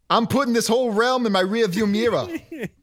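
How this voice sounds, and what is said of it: Unconvincing put-on Boston accent. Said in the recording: “can't do a Boston accent ... That's not good.”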